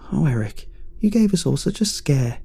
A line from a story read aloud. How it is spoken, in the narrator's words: she cried